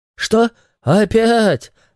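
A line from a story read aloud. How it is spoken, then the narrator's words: Groan. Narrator (Russian): застонал Фил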